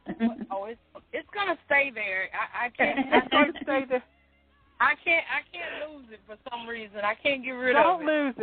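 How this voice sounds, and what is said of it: Texas accent. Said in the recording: “I hear that Texas accent coming through.”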